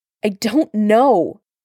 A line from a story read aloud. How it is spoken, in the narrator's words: Bucky snapped, the words bitten out like nails over gravel